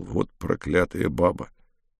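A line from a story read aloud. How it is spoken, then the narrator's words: Muttering. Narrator (Russian): Брежнев буркнул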